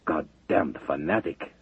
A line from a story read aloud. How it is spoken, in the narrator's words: Levchenko growled in disgust